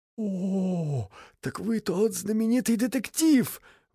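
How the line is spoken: Exclamation. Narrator (Russian): воскликнул мистер Стоунбэй

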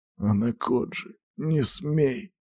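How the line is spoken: Hoarse rasp. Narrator (Russian): прохрипел Сергей

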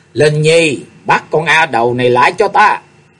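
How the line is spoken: Loud shout. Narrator (Vietnamese): Hồng y phụ nhân quát lớn

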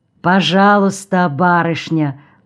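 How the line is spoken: Deep bass voice. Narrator (Russian): пробасил незабудный

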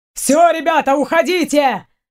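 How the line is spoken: Sudden firefighter shout. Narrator (Russian): внезапно крикнул один из пожарных

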